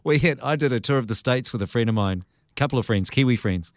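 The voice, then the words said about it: Lovely non-American English accent. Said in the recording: “I just have to admire your accent. It is so lovely. Just so lovely.”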